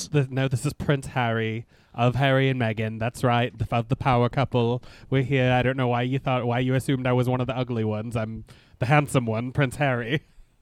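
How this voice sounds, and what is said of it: Imitates another person's voice. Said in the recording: “I feel like you're losing your accent.”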